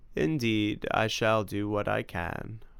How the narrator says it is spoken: said solemnly

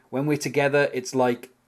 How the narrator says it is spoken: Maggie says

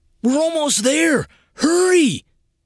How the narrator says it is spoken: Dennis yelled

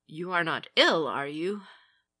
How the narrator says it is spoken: She faltered

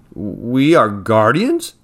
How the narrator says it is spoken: stammered Griffin

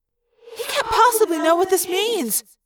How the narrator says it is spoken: Cassie cried

